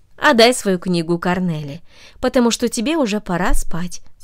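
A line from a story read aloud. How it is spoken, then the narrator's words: Plain. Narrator (Russian): сказала она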